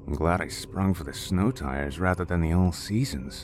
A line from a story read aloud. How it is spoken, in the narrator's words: James said under his breath